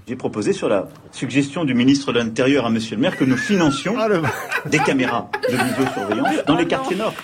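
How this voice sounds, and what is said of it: Put-on local Marseille accent. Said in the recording (French): “prendre l'accent du coin”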